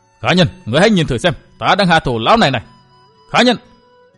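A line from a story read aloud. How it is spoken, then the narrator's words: Furious angry shout. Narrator (Vietnamese): Tức tối và căm giận, gã lại quát lên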